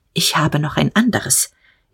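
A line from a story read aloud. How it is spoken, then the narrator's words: Curt and quiet. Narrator (German): sagte er, kurz und leise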